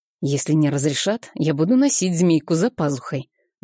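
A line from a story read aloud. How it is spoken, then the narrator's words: Conspiratorial tone. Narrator (Russian): заговорческим тоном сказал Сергей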